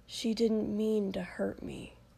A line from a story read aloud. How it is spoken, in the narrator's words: Shoto muttered